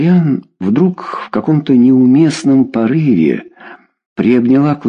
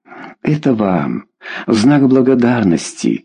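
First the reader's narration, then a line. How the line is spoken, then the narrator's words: Whispered. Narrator (Russian): зашептала Лидия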